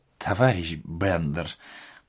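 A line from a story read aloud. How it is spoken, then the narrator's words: Muttered. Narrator (Russian): пробормотал предводитель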